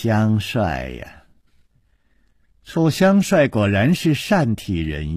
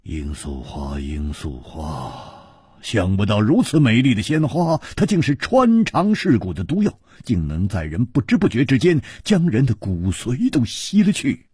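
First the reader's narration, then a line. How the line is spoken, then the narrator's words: Long sigh. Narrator (Chinese): 姬冰燕长叹道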